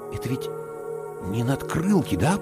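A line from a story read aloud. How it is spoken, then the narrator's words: Whisper. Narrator (Russian): прошептал я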